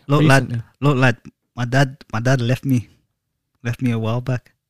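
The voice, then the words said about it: Put-on accent. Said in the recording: “Don't do that accent.”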